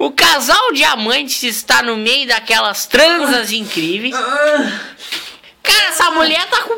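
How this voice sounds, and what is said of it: Usual voice. Nothing is said of it.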